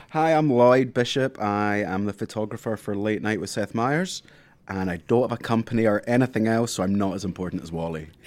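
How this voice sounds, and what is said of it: Scottish Glasgow accent. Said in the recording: “I noticed from your accent you're not from this country ... I am from Scotland, the west of Scotland, a place called Glasgow.”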